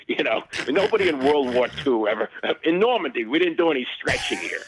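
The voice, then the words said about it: Imitated New England accent. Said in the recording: “he's got this great New England accent.”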